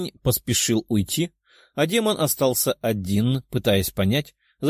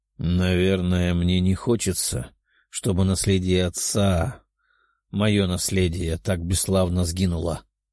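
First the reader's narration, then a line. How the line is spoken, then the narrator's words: Resentful summing up, sighing. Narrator (Russian): подытожил парень, чувствуя обиду за род, и, вздохнув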